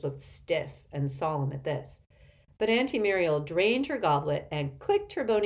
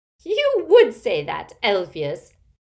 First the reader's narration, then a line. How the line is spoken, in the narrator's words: cackled Auntie Muriel